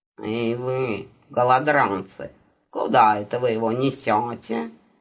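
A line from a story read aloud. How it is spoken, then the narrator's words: Haughty, slightly nasal voice. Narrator (Russian): Надменный, слегка гнусавый голос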